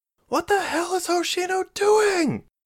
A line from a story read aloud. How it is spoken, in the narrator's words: She shouted